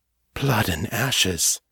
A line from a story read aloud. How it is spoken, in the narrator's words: Morgan whispered